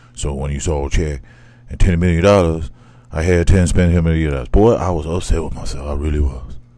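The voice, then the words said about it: Imitates another person's voice. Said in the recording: “the worst Shaq impression... That was terrible... That was terrible.”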